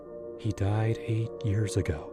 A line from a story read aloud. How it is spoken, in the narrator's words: I whispered to myself like a mantra, trying to shake off the chill that crept up my spine